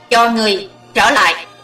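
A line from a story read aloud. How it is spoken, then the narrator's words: Shrill shout. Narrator (Vietnamese): Hắn hét lanh lảnh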